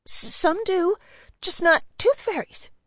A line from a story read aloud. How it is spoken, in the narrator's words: stammered